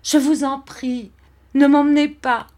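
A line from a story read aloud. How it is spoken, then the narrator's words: Bursting into sobs. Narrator (French): Et j'éclatai en sanglots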